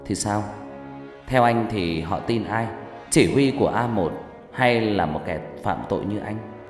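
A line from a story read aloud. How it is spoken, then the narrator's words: Smiling, provocative. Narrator (Vietnamese): Hằng mỉm cười, nói bằng giọng đầy khiêu khích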